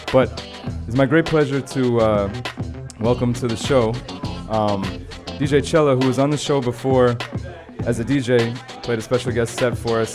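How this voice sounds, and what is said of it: Strained, fading voice. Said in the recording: “I'm losing my voice over here”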